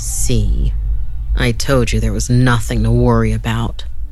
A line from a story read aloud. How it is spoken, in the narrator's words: Augie said as he chuckled